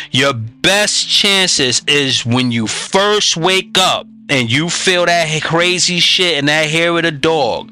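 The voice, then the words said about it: Raised, emphatic voice. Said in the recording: “I'm raising my voice. You hear the inflection.”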